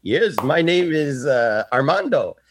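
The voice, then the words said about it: Put-on Filipino accent. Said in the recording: “the Filipino accent”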